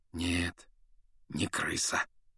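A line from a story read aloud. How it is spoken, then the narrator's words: Quiet confirmation. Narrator (Russian): негромко подтвердил Люпин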